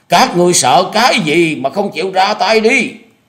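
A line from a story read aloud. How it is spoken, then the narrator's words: Straining, exhausted loud yell. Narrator (Vietnamese): Lý Ngọc Lân thu hết tàn lực hét lớn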